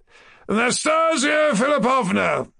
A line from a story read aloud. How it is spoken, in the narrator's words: he cried, gazing at her like a maniac, passing from timidity to the extreme of audacity